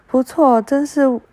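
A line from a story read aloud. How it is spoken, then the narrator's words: Angry yelling. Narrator (Chinese): 继母却大为不悦，她对丈夫吼叫着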